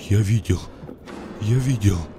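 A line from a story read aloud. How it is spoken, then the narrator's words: Trembling voice. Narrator (Russian): Дрожащим голосом говорил Олег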